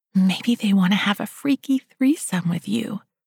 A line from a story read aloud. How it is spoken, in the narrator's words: Felicity whispered